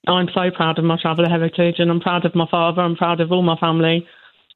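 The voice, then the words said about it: Obvious English accent. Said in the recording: “You have an obvious English accent.”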